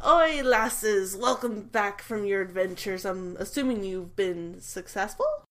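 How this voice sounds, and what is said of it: Put-on Scottish accent. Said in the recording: “When did you gain a Scottish accent?”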